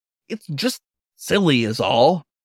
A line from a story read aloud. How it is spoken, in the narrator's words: Miles grumbled